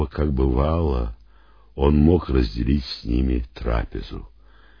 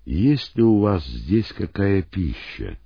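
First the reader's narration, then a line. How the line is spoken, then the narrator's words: Calm question. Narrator (Russian): спокойно, словно ничего не произошло, он спросил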